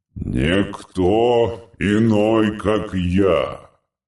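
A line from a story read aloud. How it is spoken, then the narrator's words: Deafening deep bass roar. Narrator (Russian): Проревел он оглушительно, и голос его был подобен басам огромного органа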